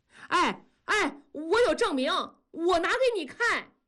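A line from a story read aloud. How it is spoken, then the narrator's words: Sudden loud shout. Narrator (Chinese): 突然扯着嗓子喊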